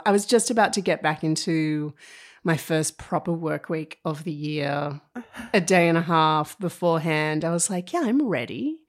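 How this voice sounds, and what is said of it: Slightly husky voice. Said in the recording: “I sound a little husky.”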